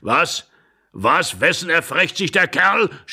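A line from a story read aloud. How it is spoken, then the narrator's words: Old man screaming furiously. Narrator (German): schrie der Alte ganz rot im Gesicht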